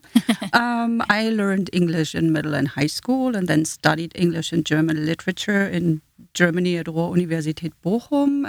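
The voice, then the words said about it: German accent. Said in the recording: “my first language is German, hence the accent”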